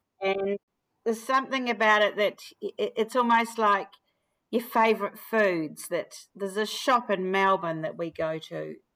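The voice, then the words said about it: New Zealand accent. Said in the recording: “when there's another Kiwi around, you sniff them out ... my accent and I'm still getting a hard time about it”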